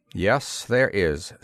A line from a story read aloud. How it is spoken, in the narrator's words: said Corun flatly